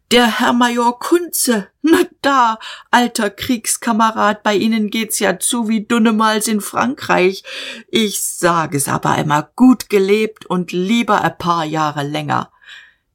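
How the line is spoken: Shouted. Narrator (German): er schrie

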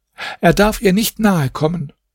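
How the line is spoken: Housekeeper calling out. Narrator (German): rief die Wirtschafterin

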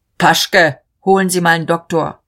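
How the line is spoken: Called downward. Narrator (German): Der Regierungspräsident rief noch hinunter

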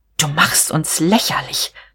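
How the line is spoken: Hissing. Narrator (German): zischte sie

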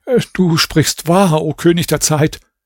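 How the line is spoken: Stammering. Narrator (German): Raschid sagte stammelnd

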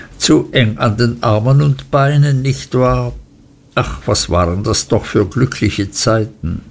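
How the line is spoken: Laughing call. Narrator (German): rief Traddles lachend

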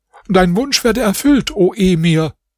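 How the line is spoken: Father's call. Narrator (German): rief der Vater des Mädchens

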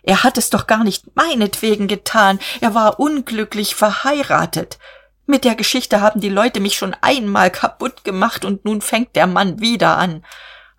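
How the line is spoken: Shrieking. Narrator (German): kreischte er

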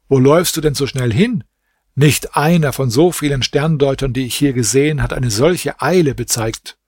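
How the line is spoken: Servant calls out. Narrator (German): Der Diener rief ihm zu

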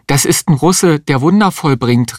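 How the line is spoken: Woman calling out. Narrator (German): rief die Existenzialistin

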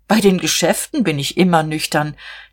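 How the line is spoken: Laughing. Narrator (German): Herr Kienast lachte auch

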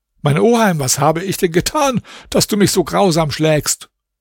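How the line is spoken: Trembling tearful cry. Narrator (German): Zitternd und mit Tränen in den Augen rief der arme Alaeddin

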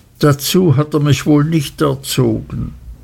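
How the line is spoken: Mother sobbing. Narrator (German): schluchzte meine Mutter

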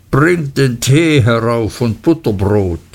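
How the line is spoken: Calling downstairs. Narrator (German): rief er eine kleine Treppe hinab

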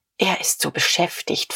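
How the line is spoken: Pale, uneasy whisper. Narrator (German): flüsterte Frau von Vulko ein wenig bleicher

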